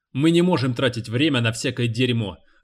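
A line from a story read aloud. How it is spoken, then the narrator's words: Sharp. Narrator (Russian): резко сказал Бензенхейвер помощнику шерифа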